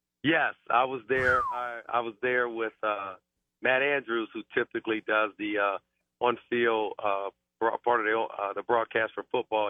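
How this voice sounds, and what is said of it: Hoarse voice. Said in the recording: “I apologize for my voice. Just a little hoarse here the last couple of days”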